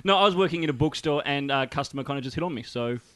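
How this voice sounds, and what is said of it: Australian accent. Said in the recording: “the Australian accent now, I get it ... because the Australian accent”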